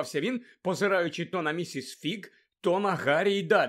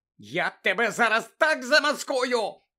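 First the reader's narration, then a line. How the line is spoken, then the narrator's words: Shouted. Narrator (Ukrainian): закричала місіс Фіг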